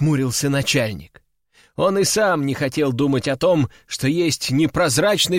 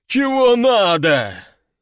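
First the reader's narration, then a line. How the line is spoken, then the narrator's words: Sleepy displeased grumble. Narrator (Russian): недовольно пробурчал начальник, заспанные глаза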